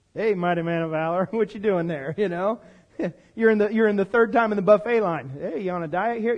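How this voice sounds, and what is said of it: Sarcastic mocking tone. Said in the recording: “Is God being sarcastic?”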